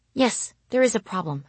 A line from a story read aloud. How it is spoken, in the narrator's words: I said tightly